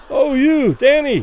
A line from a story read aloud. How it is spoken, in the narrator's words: Those further away, unable to suppress their admiration, cried loudly